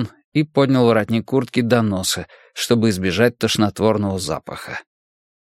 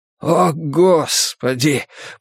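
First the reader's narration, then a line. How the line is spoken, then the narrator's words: Moan. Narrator (Russian): простонал Магнус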